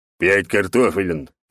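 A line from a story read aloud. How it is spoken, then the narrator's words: Thug's bark. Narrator (Russian): рявкнул громила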